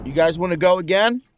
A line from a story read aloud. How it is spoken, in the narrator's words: Brandon yelled to the others